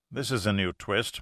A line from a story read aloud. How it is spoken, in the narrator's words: muttered Pitt, grimly